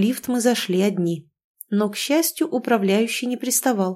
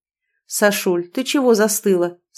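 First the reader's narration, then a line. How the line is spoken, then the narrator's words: Plain question. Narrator (Russian): спросил бес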